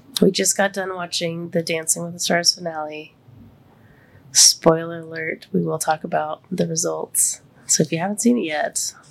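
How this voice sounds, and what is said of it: Congested, deeper than normal voice. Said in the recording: “my throat's a little super congested ... I'm super congested. My voice is a little bit deeper than normal.”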